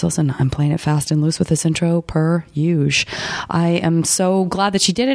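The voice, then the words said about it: Slightly hoarse, congested voice. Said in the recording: “my voice is somewhat back on track. Still a little bit hoarse ... Still a little bit congested”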